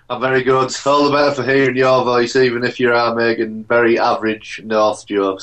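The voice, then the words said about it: Northeast English accent. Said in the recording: “No one knows with that accent... I'm from the northeast of England.”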